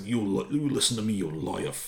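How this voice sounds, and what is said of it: Gravelly mobster voice. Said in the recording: “accent ... he's got this like this gravelly voice, like as if he's smoked 100 cigarettes for the last 30 years, 100 cigarettes a day”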